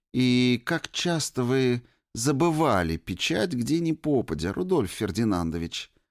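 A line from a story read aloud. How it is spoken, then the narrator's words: Sugary sweet question. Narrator (Russian): Сладким голосом вопросила Ирина Ивановна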